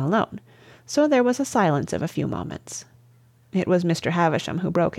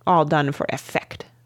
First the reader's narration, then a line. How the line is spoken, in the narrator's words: snapped his noble lordship